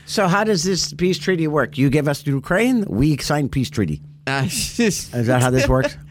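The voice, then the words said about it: Bad put-on Russian accent. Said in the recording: “Russian... I have a horrible Russian accent”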